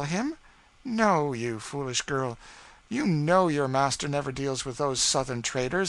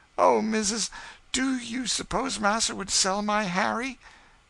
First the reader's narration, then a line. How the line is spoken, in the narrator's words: the poor creature sobbed convulsively